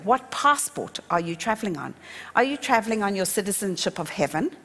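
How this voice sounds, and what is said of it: South African accent. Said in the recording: “all you hear is a South African accent”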